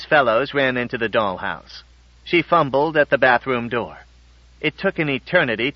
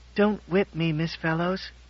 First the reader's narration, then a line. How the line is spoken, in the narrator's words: he whispered